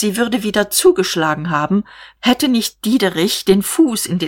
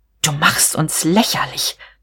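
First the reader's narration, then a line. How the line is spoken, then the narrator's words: Hissing. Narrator (German): zischte sie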